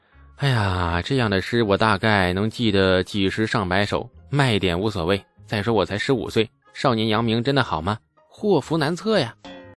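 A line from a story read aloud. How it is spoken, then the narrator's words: Sighing. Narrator (Chinese): 李素叹道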